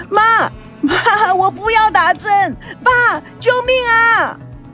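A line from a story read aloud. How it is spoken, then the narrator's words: Child wailing loudly. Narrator (Chinese): 孙娜哇哇的大叫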